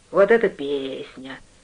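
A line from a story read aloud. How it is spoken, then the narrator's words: Hoarse voice. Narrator (Russian): хрипло сказал Артур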